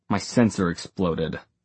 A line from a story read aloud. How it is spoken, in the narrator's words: he growled